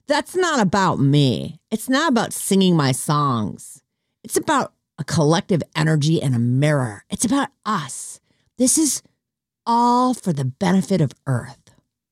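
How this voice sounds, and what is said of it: Imitates another person's voice. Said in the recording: “That's my Katy Perry impersonation. ... I'm just assuming she talks like”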